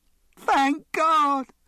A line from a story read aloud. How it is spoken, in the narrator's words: cried the girl